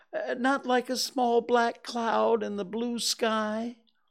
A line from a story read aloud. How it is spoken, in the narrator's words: said Pooh anxiously